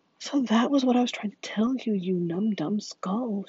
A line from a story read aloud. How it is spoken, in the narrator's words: she shrilly cried